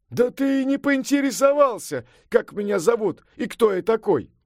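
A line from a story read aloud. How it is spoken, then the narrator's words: Exclaimed. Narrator (Russian): воскликнул Сунь-Укун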